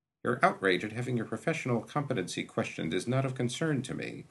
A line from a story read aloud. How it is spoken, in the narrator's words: Gash said dryly